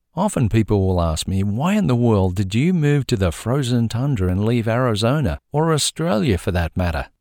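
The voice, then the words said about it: Warm Australian accent. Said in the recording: “providing you with a warm Australian accent”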